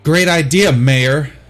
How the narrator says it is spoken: Zoe shouts

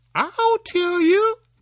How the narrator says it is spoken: cried Tom

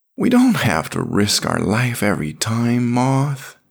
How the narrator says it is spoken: he moaned

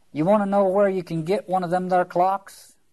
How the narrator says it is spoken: said in a loud voice

